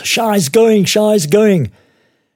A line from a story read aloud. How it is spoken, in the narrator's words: bursts into the room we use as an office and yells